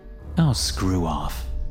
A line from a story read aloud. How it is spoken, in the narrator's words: I muttered, beginning to feel nauseous